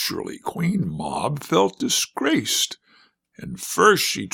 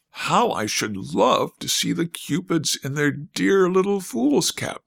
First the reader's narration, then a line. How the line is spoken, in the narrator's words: Mamie cried